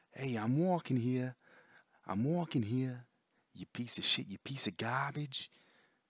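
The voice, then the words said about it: Stereotypical New York accent. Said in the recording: “stereotypical New York accent.”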